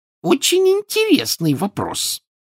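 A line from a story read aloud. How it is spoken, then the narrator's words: Shrill female answer. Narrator (Russian): визгливо ответила она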